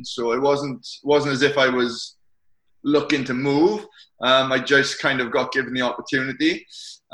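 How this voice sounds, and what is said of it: Strong Welsh accent. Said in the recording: “you obviously got a strong accent ... from Swansea in South Wales”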